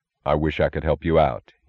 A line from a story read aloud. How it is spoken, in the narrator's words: he said